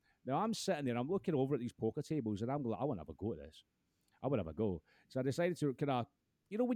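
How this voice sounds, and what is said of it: Usual voice. Nothing is said of it.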